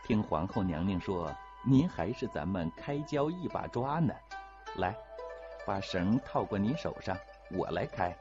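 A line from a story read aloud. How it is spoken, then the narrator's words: Laughing. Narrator (Chinese): 乌雅氏笑着说了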